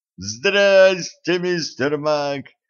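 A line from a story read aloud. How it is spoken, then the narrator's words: Joyful shout. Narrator (Russian): радостно заорал Кларенс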